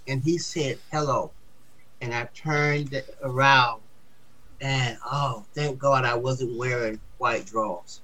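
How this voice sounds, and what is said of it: Deep Southern accent. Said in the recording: “I had a deep Southern accent, which I still have”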